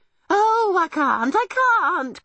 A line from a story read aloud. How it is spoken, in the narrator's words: cried Homily